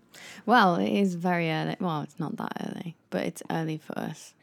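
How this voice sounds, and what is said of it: British accent. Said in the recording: “We're from the UK. Tell by our irritating accent.”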